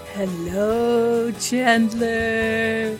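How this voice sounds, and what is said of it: Spooky Halloween voice. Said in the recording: “That's my spooky voice.”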